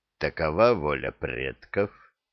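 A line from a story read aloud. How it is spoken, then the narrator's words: Cold repetition. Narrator (Russian): холодно повторил шаман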